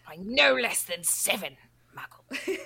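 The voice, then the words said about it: Hissing impression of a film character. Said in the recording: “His little, like, hiss that he does ... do a better impression”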